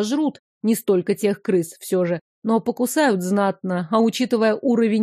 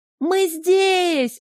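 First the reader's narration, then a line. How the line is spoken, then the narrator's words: Full-volume yell. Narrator (Russian): заорала во всю мощь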